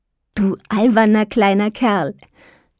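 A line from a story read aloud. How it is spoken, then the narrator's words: Laughing mother. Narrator (German): lachend seine Mutter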